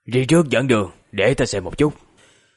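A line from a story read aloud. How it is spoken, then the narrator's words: Cold. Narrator (Vietnamese): Khúc Hồn liền lạnh lùng mở miệng nói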